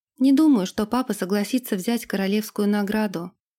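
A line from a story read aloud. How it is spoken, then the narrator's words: Plain. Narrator (Russian): ответила Ирга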